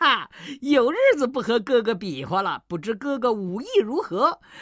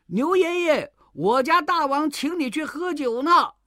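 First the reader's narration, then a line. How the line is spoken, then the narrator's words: Sudden call. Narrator (Chinese): 忽然有人叫道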